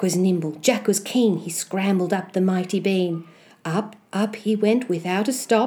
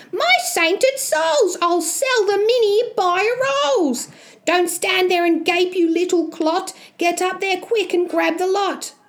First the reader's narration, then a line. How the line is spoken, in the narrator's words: She yells out loud